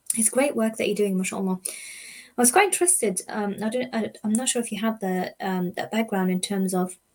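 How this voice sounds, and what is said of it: Hoarse, failing voice. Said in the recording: “Excuse me. I'm losing my voice.”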